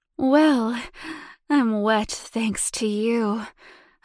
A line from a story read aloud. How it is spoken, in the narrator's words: sighed, smiling